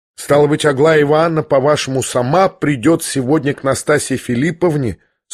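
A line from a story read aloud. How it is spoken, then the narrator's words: Plain. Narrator (Russian): спросил князь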